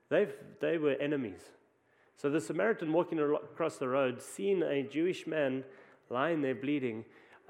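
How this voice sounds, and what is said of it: South African accent. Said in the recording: “you might hear from my accent that I'm from South Africa”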